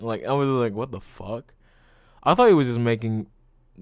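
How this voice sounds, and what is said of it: Usual voice. Nothing is said of it.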